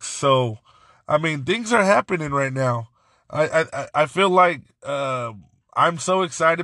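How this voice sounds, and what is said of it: Raspy, worn-out voice. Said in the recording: “My voice is going. Also, I, am so raspy because of, of yelling the whole time at the Foxes game.”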